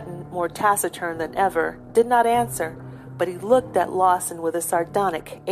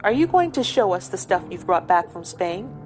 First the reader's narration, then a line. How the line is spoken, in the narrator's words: asked Philip